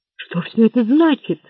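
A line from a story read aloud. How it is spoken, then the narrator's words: Trembling voice. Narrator (Russian): дрожащим голосом спросил Лафайет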